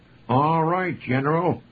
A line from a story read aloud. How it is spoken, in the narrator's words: Hal Jarrell exclaimed